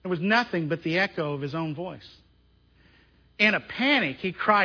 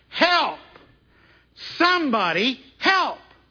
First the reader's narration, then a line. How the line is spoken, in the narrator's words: in a panic, he cried